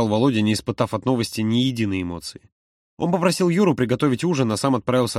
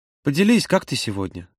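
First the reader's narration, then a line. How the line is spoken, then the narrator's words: Quiet question. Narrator (Russian): тихо спросил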